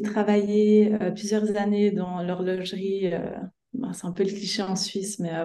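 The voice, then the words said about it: Swiss French accent. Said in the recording (French): “vous entendrez par mon petit accent que je viens de Suisse.”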